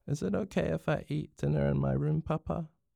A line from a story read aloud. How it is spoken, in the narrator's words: Her voice was croaky